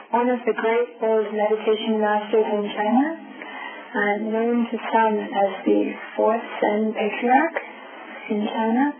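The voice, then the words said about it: Soft voice, sore throat. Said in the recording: “my voice is so soft. I've got a little bit of an allergy, kind of a sore throat”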